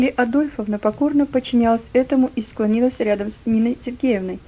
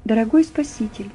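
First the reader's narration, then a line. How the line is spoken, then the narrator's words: Quiet beginning. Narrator (Russian): тихо начала Нина Сергеевна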